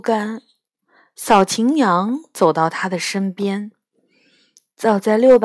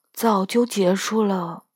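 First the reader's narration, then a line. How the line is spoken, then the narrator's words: Wizard murmuring. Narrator (Chinese): 托雅巫师喃喃地说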